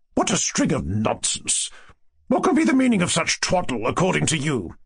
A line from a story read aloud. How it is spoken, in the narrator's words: Lizaveta Prokofievna asked sharply